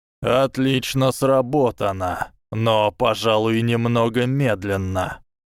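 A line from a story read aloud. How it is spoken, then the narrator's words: Creaky voice. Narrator (Russian): проскрипел его голос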